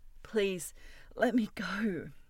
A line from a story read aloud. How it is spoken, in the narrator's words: pleaded